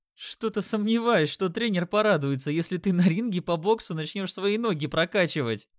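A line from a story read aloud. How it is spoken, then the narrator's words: Loud laughter. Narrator (Russian): расхохотался Димон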